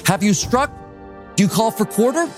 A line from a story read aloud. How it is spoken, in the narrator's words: Royal Navy Captain Richard Pearson shouted across to the American captain